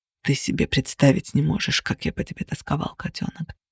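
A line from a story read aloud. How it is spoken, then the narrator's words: Murmuring. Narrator (Russian): пробормотал Кости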